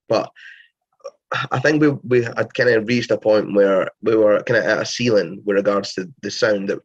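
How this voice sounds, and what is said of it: Strong Scottish accent. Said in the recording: “the well strong Scottish accent”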